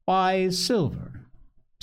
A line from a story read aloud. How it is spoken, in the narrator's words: said the captain